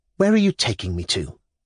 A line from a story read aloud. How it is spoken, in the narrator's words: answered, coldly and abruptly